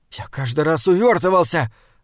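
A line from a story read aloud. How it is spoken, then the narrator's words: Frightened whisper. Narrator (Russian): объяснил постоялец тем же испуганным шепотом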